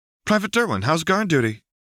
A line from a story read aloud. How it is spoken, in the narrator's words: Lux asked brightly